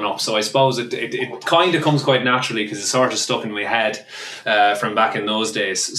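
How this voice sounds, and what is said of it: Put-on Irish accent. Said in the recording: “Irish accent ... it's sort of happy sounding ... Nailed it ... that's very good”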